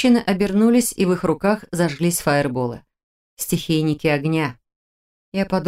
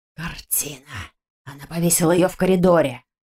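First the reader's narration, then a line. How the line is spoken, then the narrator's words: Surprised hiss. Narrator (Russian): Удивленно прошипел его сообщник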